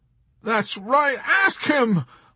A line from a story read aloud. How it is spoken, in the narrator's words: Hungry Joe exclaimed in a rage